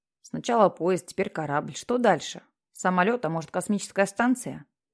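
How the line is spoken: Self-ironic mutter. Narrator (Russian): Пробурчал Питер себе под нос с явной долей самоиронии

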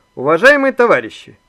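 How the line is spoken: Loud announcement. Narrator (Russian): громко начал Иван

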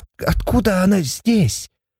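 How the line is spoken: Frightened hoarse rasp. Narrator (Russian): По спине Сати пробежался холодок, и она, сглотнув, прохрипела

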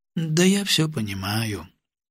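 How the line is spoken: Glum. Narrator (Russian): уныло кивнул я

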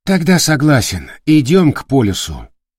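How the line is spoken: Sighing. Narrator (Russian): вздохнул Олецкий

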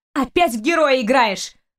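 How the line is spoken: Angry retort. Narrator (Russian): зло отозвалась она

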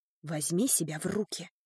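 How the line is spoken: Annoyed mutter. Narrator (Russian): пробормотала я с досадой

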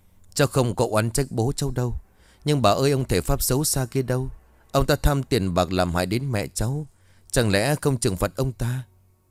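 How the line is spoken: Sighing old woman. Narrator (Vietnamese): Bà Tĩnh liền thở dài

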